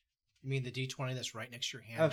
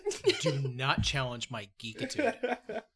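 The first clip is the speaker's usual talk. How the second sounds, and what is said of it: Exaggerated dad voice. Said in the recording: “that was a dad voice”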